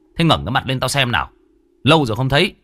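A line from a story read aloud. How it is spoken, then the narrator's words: Harsh growled shout. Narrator (Vietnamese): Anh Hùng bây giờ mới gằn giọng quát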